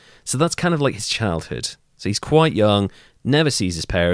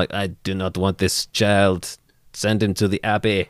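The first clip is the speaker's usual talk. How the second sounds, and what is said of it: Stereotypical put-on French accent. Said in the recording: “stereotypical French accent.”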